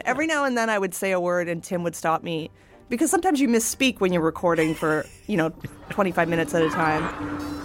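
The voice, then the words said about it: Canadian accent. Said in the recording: “I have a Canadian accent and certain words, like when I say out or about, it sounds funny ... the Canadian accent is wonderful”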